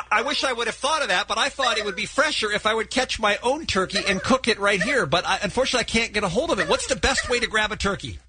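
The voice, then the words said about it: Flustered, out of breath. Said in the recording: “I sound like I'm flustered. I'm out of breath.”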